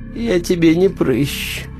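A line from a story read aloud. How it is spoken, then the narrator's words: Sleepy. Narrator (Russian): сонно сказала грязная гора мяса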